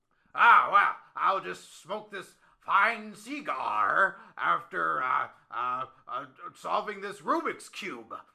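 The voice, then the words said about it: Monopoly man character voice. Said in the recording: “Are you the Monopoly man? It sounds like you're the Mr. Monopoly. ... I was going back to the character.”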